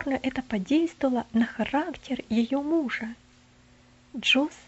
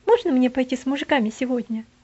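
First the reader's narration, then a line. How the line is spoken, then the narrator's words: Quick question. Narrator (Russian): он быстро спрашивал дядю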